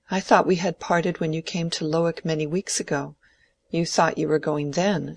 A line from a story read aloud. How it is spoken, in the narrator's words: said Dorothea, her voice trembling a little